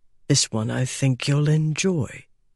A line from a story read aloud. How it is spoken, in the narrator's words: he murmured in English